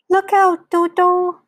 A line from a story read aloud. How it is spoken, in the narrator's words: shouted Humpy Rumpy